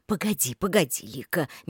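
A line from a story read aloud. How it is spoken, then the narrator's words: Gentle. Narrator (Russian): мягко остановил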